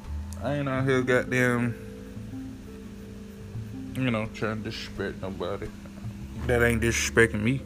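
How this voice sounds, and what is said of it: Country accent. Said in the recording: “I like talking country. I am country... At least my accent.”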